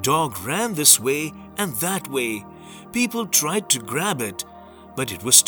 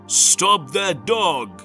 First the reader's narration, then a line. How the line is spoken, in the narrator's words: The king shouted